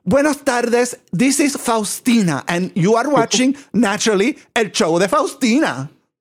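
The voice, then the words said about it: High voice, Rita Moreno accent. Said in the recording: “With this high voice ... doing my West Side Story, Rita Moreno accent”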